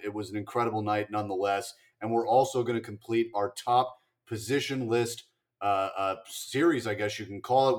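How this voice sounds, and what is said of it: Hoarse, partly lost voice. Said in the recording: “tell from my voice ... My voice is halfway gone from cheering last night”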